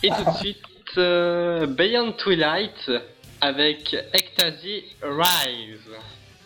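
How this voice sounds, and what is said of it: Bad put-on English accent. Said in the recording (French): “l'accent anglais pourri”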